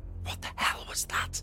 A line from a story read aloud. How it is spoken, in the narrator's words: Danny whispered, shocked